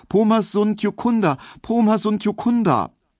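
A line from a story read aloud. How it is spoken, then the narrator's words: High fearful repeated cry. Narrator (German): er rief nur immer wieder ganz hoch und ängstlich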